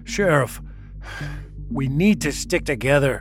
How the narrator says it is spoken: John gasped as he struggled to catch his breath

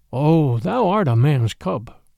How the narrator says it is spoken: said the Black Panther, very tenderly

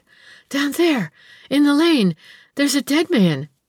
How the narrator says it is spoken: answered the girl, gasping for breath

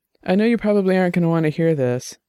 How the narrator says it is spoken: Dex said, his voice a little thick from the rum

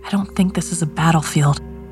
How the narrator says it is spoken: Catherine whispered

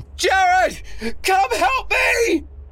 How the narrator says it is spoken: Ray scream

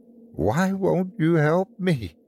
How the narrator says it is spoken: She whimpered

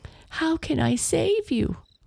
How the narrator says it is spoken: Astrid sobbed

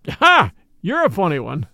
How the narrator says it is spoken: chuckled

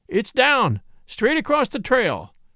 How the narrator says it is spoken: shouted Fairfax

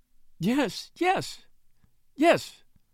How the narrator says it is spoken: sobbed the widow

